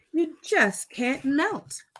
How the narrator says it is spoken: cried Karen

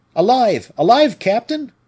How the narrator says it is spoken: cried one excited soldier

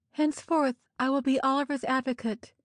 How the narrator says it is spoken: cried

